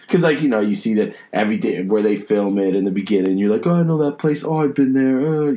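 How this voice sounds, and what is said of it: North Jersey accent. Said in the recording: “I'm from North Jersey, if you can't tell by the accent.”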